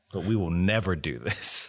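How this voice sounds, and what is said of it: Sarcastic tone. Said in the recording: “it might sound like I'm being sarcastic ... I know I'm winking a thousand times a second”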